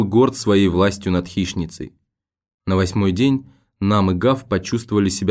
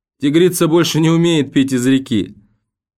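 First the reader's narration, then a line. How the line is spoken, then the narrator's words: Mocking shout. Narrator (Russian): он крикнул насмешливо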